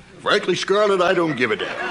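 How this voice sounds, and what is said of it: Clark Gable impression. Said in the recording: “his impersonation kit ... Clark Gable ... Older Gable”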